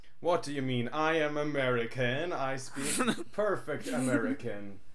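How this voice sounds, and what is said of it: Norwegian accent in English. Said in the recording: “your accent ... I'm from Norway ... We're both Norwegians.”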